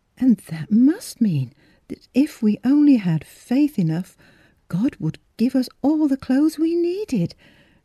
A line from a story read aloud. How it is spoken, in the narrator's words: cried Miss Philura jubilantly